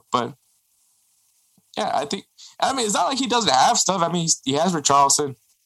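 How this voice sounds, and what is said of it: High-pitched voice with a sore throat. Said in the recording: “whenever your voice goes that high up ... I have a cold ... Usually when you have a cold, you sound nasally, not high pitched ... My throat hurts.”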